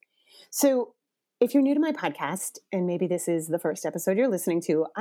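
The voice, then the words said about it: Raspy, stuffy congested voice. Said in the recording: “Coming at you today with the cold that is sweeping the nation ... my voice is a little raspy, I'm a little stuffy”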